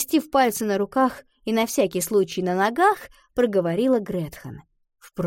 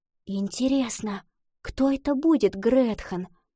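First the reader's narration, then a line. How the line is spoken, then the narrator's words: Whispered. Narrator (Russian): прошептала Лотти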